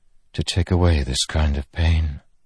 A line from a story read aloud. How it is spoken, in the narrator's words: she whispered